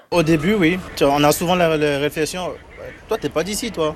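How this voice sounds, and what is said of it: Beninese French accent, unusual R sounds. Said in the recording (French): “Mon accent, c'est... Des fois, il y a par exemple les R qui ne sont pas bien prononcés ... Du Bénin, je suis béninois.”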